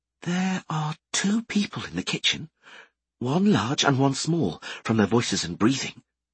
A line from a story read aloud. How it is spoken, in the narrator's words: whispered